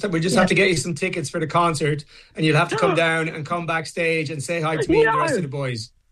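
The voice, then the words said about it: Irish accent. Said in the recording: “adorable Irish accent”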